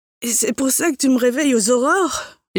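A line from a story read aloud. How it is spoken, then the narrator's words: Groaned. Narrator (French): gémis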